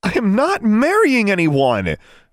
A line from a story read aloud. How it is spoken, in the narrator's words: she exclaimed